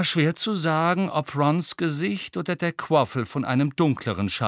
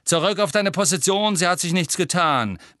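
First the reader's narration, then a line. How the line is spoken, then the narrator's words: Barking command. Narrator (German): bellte Angelina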